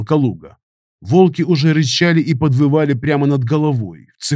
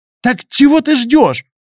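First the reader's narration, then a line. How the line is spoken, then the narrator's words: Shouted. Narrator (Russian): выкрикнула Яна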